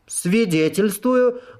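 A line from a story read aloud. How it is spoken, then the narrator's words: Loud cry. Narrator (Russian): громко выкрикнула Сайти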